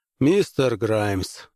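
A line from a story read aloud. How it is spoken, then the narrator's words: Weary, commodore. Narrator (Russian): устало начал коммодор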